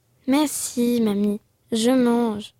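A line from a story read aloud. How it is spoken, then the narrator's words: Plain. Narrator (French): dit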